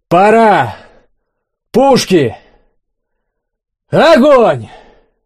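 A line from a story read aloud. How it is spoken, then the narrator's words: Shouted. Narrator (Russian): крикнул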